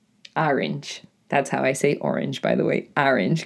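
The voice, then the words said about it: Deep raspy New England accent. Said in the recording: “my slightly, like, deep and raspy New England accented voice... because of my New England accent”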